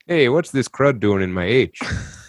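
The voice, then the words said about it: Put-on Minnesota accent. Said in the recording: “I used to do a really good Minnesota accent, but now I've lost it. ... I think I can do the impression. I'm Minnesota.”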